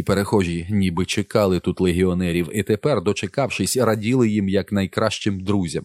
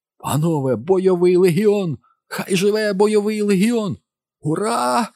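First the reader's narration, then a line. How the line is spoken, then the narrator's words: Crowd shouting. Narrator (Ukrainian): закричали бліді люди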